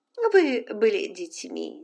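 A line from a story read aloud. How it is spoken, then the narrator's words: Plain. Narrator (Russian): сказала Полина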